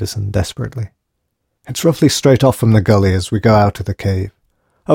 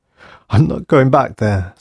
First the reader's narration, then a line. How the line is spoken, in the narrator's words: sobbed O'Keefe